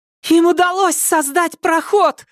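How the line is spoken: Piercing shout inside mind. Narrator (Russian): закричала Тереза у него в мозгу так пронзительно, что юноше показалось, будто ему в голову вбивают клин

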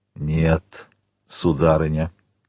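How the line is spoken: Muffled. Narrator (Russian): глухо промолвил Вильфор

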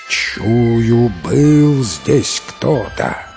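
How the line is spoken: Growling bear. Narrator (Russian): Зарычал медведь

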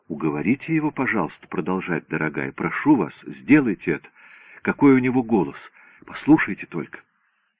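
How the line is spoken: Whispered. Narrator (Russian): она прошептала

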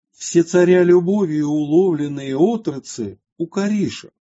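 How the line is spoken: Loud singing king. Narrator (Russian): царь громко запел

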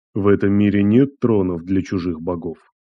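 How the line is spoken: Quiet. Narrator (Russian): Андрей лишь тихо сказал

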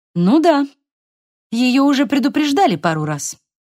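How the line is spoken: Sharp tone. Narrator (Russian): продолжила Мелисса резким тоном

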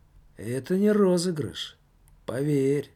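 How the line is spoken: Serious tone. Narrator (Russian): серьезным тоном ответил паспорт тюремный

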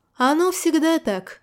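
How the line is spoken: Unrestrained chuckle. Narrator (Russian): не сдержавшись, хохотнул Мстислав

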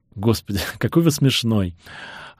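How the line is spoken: Laughing. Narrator (Russian): Она расхохоталась

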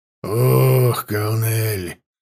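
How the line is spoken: Sighing. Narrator (Russian): вздохнул Ворк

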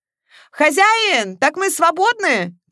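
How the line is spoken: Men shouting. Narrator (Russian): крикнули мужчины с грузовика

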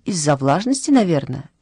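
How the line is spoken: Cheerful explanation. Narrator (Russian): весело объяснила Матильда

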